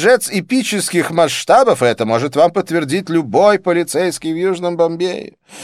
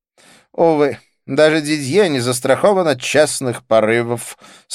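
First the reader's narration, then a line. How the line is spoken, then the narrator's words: Rueful sigh. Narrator (Russian): сокрушенно вздохнул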